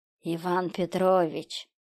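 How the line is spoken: Hissing maniac. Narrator (Russian): прошипел маньяк

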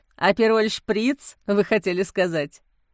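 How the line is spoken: Laughing. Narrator (Russian): засмеялся айтишник

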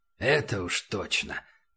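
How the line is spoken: Sighing. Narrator (Russian): вздохнул Антонио

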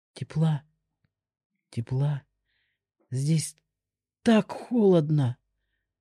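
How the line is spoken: King mumbling. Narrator (Russian): пробормотал король

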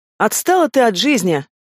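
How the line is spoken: Snorted. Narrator (Russian): фыркнула Зайка

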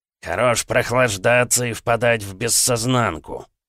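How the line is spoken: Gritted teeth, breathing heavily. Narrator (Russian): процедил он, тяжело дыша

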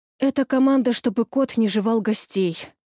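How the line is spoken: Sighing. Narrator (Russian): вздохнула я

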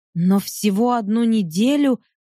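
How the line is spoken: Timid babble. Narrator (Russian): пролепетала Катя

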